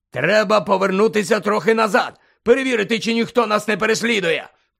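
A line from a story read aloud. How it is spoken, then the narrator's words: Shout. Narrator (Ukrainian): крикнув Муді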